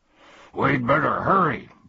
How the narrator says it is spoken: barked Tok

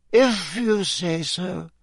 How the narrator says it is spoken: she muttered sleepily

